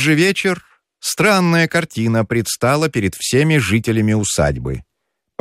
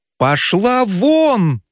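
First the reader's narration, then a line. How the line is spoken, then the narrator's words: Shouted. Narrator (Russian): закричал Федяшев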